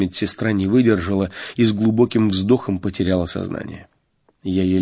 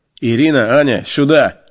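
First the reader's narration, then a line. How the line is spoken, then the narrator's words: Loud bark. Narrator (Russian): рявкнул я на все отделение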